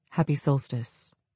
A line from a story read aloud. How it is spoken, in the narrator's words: he gently said to my sister